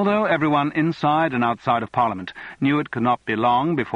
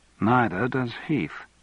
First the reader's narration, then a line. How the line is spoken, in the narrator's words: commented Elizabeth dryly